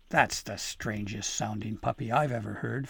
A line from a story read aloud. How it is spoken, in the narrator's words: Fanifru growled